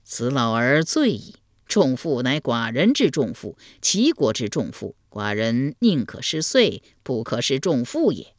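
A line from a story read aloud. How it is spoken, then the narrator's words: Delighted laughing. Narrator (Chinese): 齐桓公闻言大乐，笑对陈蔡朱三军说道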